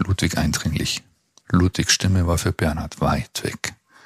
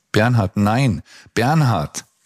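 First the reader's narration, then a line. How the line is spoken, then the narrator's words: Shouting. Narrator (German): schrie Ludwig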